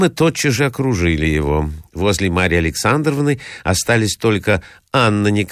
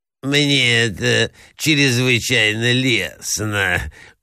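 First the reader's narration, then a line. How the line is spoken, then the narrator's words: Lisping. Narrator (Russian): шепелявил князь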